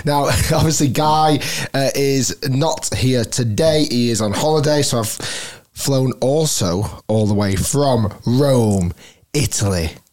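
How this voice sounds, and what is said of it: Strained, hoarse voice. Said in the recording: “I am, you might hear from my voice. Let's say I've been chanting a little bit too much.”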